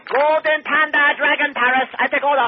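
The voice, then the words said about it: Put-on stereotyped Chinese accent. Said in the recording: “I don't like that accent. Sounds racially charged.”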